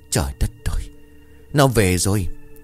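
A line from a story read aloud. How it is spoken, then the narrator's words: Choked, trembling terror. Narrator (Vietnamese): ông xanh mặt, đôi môi run rẩy, giọng cung như nghẹn lại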